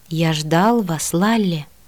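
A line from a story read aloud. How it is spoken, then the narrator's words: Barely audible. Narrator (Russian): произнес тихо настолько, что это могло лишь мне померещиться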